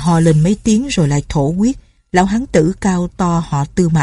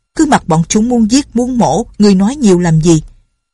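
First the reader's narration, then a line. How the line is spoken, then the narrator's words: Old man shouting. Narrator (Vietnamese): lão họ Triệu quát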